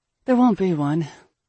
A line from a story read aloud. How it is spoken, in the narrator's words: the woman sighed